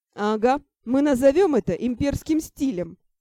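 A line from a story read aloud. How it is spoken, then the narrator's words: Laughing. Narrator (Russian): засмеялся Ар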